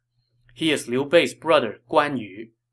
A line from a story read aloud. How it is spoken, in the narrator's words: Gongsun Zan replied